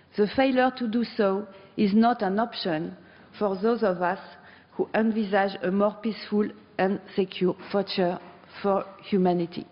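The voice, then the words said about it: Strong non-native accent. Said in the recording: “I'm very sorry for my accent, which sounds terrible.”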